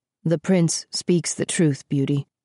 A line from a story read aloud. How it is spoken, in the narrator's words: the king said in a low voice, still unwilling to look at his daughter